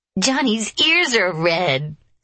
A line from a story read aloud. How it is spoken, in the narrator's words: squealed Izana